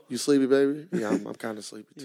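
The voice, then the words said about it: Deep seductive low phone voice. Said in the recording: “you put on your Barry White voice ... Put on my sex operator voice when I get on that phone”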